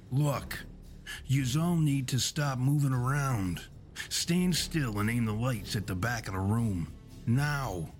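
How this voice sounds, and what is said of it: Commanding voice. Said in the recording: “in a commanding voice”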